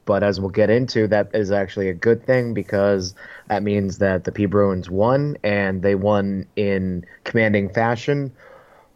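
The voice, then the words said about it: Slightly rough, hoarse voice. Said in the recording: “my voice is a little rough”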